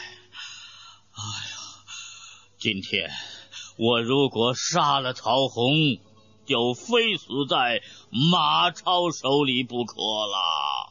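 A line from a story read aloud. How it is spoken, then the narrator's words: Sighing. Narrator (Chinese): 曹操叹了一口气说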